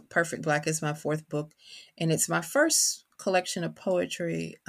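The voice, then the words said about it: Kentucky accent. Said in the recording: “your audience can probably tell from my accent that I am from Kentucky”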